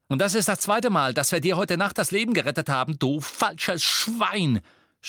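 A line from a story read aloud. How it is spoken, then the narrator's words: Shouting. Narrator (German): schrie Ron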